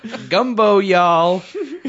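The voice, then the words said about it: Exaggerated New Orleans accent. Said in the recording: “crazy New Orleans voice ... That was my crazy New Orleans voice ... really good impression of celebrity chef Paul Prudhomme”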